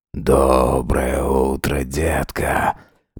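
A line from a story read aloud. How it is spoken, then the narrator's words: Hoarse sleepy mumble. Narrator (Russian): Пробормотал хриплым со сна голосом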